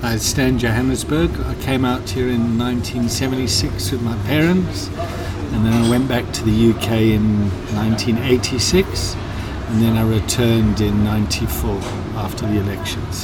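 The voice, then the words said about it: British English accent. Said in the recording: “You sound British, am I correct? ... And you still keep the accent? It sounds like it.”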